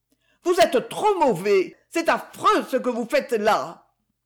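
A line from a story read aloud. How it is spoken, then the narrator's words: Vibrant indignant exclamation. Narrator (French): Oubliant tout, Liliane s'écria, d'un ton vibrant d'indignation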